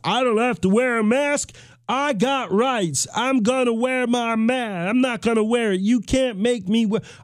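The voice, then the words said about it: Put-on Gomer Pyle style accent. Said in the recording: “I felt like that was the accent that a non-mask wearing ... non-mask wearing person sounds like. They sounded a little bit like Gomer Pyle.”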